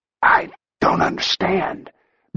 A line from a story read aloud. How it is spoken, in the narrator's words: Backman managed to whisper